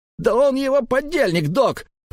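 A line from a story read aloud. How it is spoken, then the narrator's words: Nasty shrill squeal. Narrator (Russian): Противно взвизгнул Клаус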